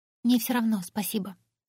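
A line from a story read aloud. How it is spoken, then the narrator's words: Quiet young woman. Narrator (Russian): тихо ответила девушка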